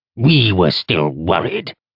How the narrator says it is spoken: Orthos grunted

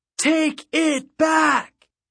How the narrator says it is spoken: It was a defiant yell, like a sound shouted into the surf or screamed off a cliff

